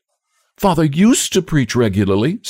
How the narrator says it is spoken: said the girl eagerly

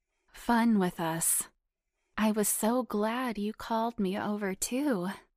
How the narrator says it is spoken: she purred back and smirked

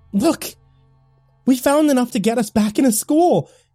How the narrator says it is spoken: exclaimed

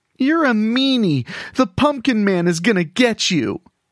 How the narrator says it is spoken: the kid cried out

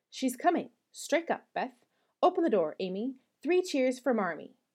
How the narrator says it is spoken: cried Joe, prancing about

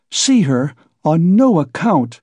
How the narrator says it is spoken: cried Pulcheria Alexandrovna

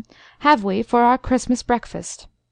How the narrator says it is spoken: asked the colonel kindly

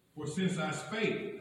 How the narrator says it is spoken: I cried out

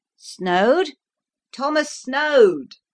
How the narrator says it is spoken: I cried, till my throat pained

